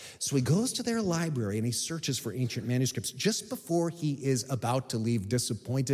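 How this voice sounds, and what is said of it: Usual voice. Nothing is said of it.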